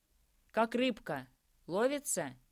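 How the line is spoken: Shout. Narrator (Russian): крикнул Андрей

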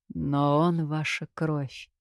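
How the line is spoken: Understanding sigh. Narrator (Russian): понимающе вздохнул Кирино

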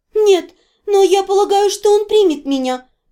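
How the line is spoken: Even more timid reply. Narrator (Russian): еще более робко ответила

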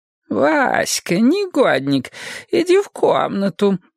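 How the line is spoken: Grandmother cooing. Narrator (Russian): заворковала бабушка

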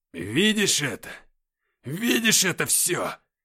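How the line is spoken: Barked. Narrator (Russian): рявкнул он

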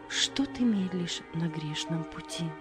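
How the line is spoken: Soft choral singing. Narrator (Russian): Хор тихо запел

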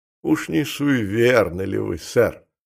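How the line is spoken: Contemptuous mutter. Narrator (Russian): пробормотал, презрительная усмешка

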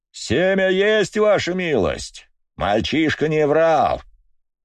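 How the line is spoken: Loud report. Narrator (Russian): Громко докладывает мужик

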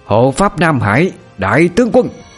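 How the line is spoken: Howl louder than storm. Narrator (Vietnamese): vang lên một tiếng hú lấn át đi mọi tiếng gào thét của cơn bão

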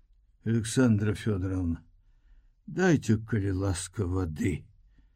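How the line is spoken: Quiet request. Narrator (Belarusian): ціха папрасіў

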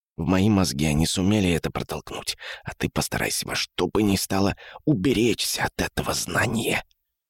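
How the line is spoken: Whisper. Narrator (Russian): Конец фразы он снова произнес шепотом

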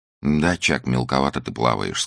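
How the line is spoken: Calm woman. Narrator (Russian): сказала она спокойно

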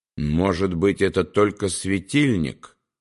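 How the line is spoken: Plain. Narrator (Russian): сказал Вильгельм

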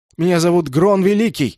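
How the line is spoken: Shout. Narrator (Russian): закричал Шонг

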